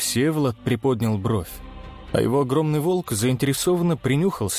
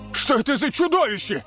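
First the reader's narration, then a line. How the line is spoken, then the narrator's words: Shouted in disbelief. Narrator (Russian): выкрикнул, не веря своим глазам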